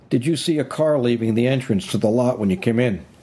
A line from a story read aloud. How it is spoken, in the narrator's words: Hoskins barked